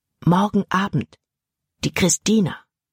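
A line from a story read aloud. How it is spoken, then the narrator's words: Whisper in ear. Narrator (German): flüsterte er in Jordans Ohr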